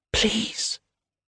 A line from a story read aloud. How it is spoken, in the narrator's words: whispers